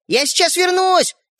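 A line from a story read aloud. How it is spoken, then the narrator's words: Shouting while running. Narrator (Russian): крикнул он на бегу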